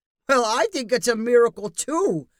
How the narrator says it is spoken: said Professor Pitt, still chuckling to himself

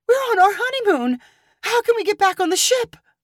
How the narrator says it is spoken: Tears burst from her eyes as she cried

